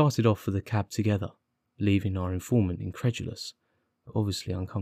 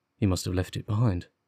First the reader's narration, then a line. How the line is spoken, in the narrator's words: muttered my companion